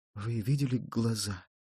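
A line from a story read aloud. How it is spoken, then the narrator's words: Mumbling. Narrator (Russian): бормоча только время от времени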